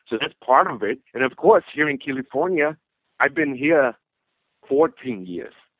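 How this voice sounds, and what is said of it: Austrian-accented English. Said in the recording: “have the Austrian accent... this is a Balzi accent”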